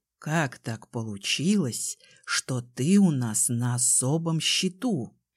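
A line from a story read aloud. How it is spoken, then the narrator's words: Whispered. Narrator (Russian): прошептал Кай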